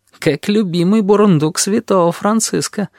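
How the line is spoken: Answering with a giggle. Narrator (Russian): ответил сфинкс, хихикнув

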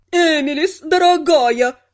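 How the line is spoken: Exclaiming. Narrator (Russian): воскликнул красноволосый

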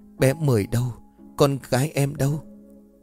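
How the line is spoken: Tearful, trembling. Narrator (Vietnamese): nước mắt trào ra khỏi khóe mi, cô liền run rẩy

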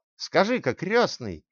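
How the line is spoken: Shouted after someone. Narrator (Russian): крикнул ему вдогонку фриц

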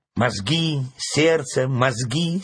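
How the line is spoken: Angry interruption. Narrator (Russian): сердито оборвала ворона

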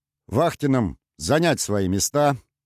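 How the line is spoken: Loud announcement. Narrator (Russian): громко объявил капитан

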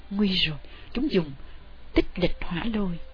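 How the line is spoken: Soft alarmed cry. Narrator (Vietnamese): Thanh Phong kêu khẽ

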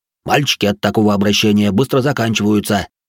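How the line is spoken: Irritated barking. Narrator (Russian): рявкнул Рэй раздраженно

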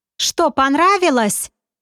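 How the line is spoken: Cheerful question. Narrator (Russian): Весело поинтересовалась барышня

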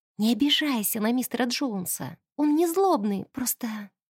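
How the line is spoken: Quiet. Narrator (Russian): тихонько сказала она

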